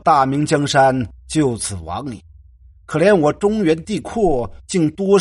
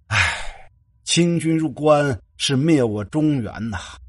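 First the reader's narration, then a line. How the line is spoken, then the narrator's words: Long lament to heaven. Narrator (Chinese): 沈仲仰天长叹道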